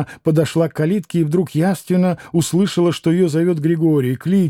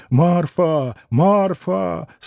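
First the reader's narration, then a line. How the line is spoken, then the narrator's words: Weak, moaning, terrible voice. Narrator (Russian): слабым, стенящим, страшным голосом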